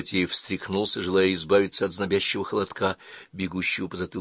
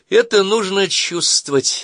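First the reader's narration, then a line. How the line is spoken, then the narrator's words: Flirtatious, inviting laughter. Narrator (Russian): Она кокетливо и призывно засмеялась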